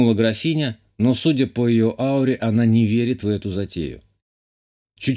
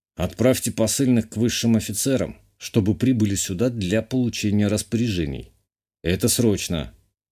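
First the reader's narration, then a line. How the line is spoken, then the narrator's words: Gloomy. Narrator (Russian): мрачно сказал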